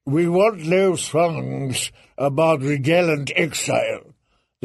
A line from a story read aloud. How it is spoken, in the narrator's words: the eunuch had tittered in that mincing voice of his